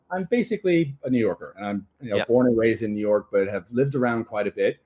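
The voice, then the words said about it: New York American accent. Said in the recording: “The accent I know is a dead giveaway. I grew up in New York.”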